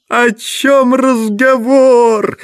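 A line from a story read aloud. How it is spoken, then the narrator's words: Roar. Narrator (Russian): взревел Коровьев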